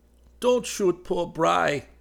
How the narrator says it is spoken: he said pleadingly

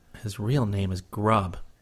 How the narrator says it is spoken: Chris muttered under his breath

